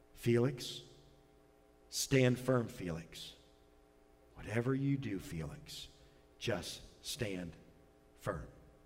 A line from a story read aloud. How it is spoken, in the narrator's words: She's whispered quietly